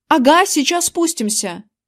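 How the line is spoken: Shouted. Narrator (Russian): крикнул я

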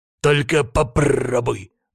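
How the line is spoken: Menacing exclamation. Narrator (Russian): грозно воскликнул

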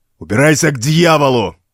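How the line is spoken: Barking shout. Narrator (Russian): Рявкнул Вулми

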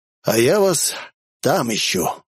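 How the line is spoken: Breathless exhale. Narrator (Russian): выдохнул

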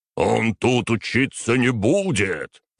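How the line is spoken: Angry growl. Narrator (Russian): зарычал преподаватель

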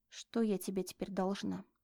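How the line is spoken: Quiet. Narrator (Russian): Оксана проговорила это тихо

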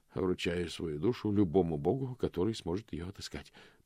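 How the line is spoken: Muttered in stifling heat. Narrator (Russian): пробормотал он в тяжелой духоте

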